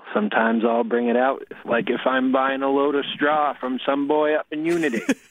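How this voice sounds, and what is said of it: Strong Maine accent. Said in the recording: “I grew up in Maine ... you could sort of tell, right? He was really pouring it on”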